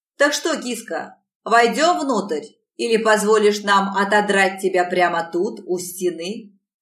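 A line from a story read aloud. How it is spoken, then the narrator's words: Harsh bark in face. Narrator (Russian): Рявкнул он мне в лицо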